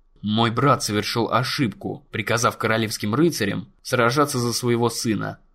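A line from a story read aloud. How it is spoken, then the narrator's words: Calm remark. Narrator (Russian): спокойно заметил Бейлор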